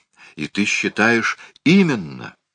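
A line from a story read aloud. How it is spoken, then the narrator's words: Exclaiming. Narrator (Russian): воскликнул Этуэл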